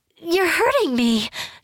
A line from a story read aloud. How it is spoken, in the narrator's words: she cried out